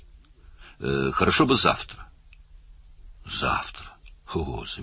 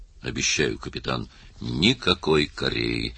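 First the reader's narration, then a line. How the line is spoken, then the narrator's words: Solemn declaration. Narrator (Russian): торжественно заявил я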